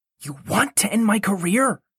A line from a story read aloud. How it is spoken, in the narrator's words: Wilbur hissed